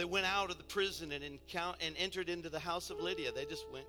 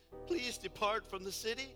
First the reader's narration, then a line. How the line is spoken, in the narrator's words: pleaded with them and asked them